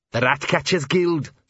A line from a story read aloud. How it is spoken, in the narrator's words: snarled Arthur